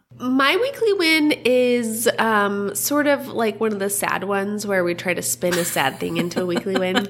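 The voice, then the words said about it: Voice sounding stuffy from a cold. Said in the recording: “I've got a little bit of a cold... You can't hide a cold when you're a podcaster. You know, it's loud and clear for everyone to hear.”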